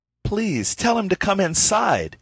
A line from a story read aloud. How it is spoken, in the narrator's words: he exclaimed with real concern